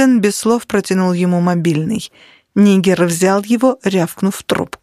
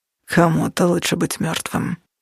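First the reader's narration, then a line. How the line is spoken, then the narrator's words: Muttering. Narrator (Russian): пробормотал Нигер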